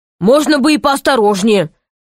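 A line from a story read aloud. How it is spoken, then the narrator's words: Grumbling. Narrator (Russian): проворчал он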